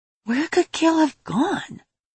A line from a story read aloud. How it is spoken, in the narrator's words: she muttered to herself